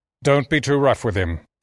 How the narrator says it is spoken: says Ajar

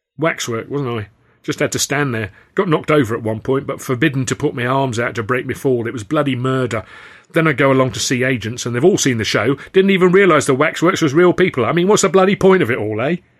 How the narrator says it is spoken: he would keep grumbling

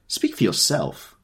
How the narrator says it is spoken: cried Miss Baedeker violently

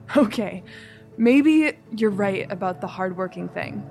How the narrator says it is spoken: laughed

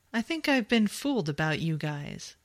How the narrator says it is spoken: Jamie chuckled

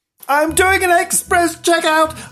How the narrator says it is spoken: I cried

